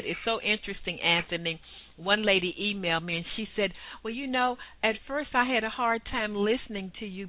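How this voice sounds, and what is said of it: Clear, musical Southern American accent. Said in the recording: “my southern accent ... your accent is delightful ... you just sound so clear and you have such a nice sort of musical tone to your voice”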